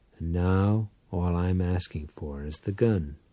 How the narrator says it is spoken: Powell answered quietly

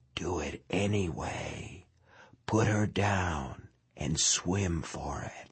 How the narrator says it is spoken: tenebrously, his mind whispered

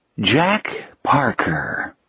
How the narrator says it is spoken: he said softly

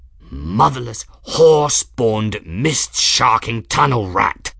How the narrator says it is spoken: Journeyman snarled

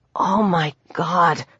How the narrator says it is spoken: she breathed

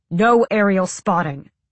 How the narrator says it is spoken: Sam said sharply

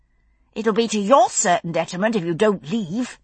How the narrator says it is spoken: Brianna had informed him through clenched teeth

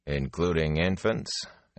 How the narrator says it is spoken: Elias asked dryly

